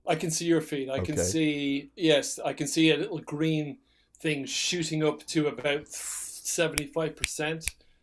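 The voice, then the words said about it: Soft Irish accent. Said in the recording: “my soft Irish lilt”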